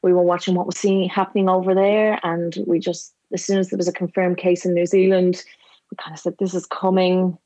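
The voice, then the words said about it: Irish accent. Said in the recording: “from my accent, you can tell I'm from Ireland”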